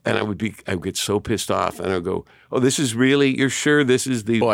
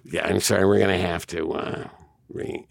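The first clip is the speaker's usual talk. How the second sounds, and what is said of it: Impression of a colleague's voice. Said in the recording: “I'm doing an impression of you, by the way.”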